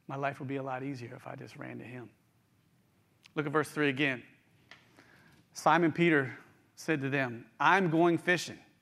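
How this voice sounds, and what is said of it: West Virginia twang. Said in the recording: “that's my West Virginia twang coming out”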